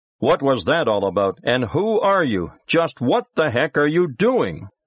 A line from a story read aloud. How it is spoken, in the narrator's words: shouting